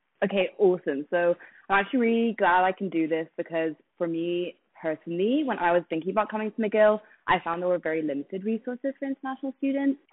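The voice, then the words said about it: British accent. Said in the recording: “as you might be able to tell from her accent, is from the UK”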